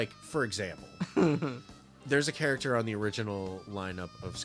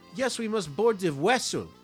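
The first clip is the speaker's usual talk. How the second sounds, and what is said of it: Exaggerated Russian accent. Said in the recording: “he had a very light Russian accent... holy shit, what is wrong with that person's mouth?”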